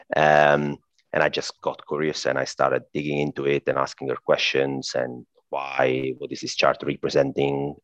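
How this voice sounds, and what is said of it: Italian accent. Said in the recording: “I'm Italian, by the way. I guess my accent already gave that up”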